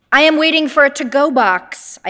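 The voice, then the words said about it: Loud voice. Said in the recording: “I say in a loud voice.”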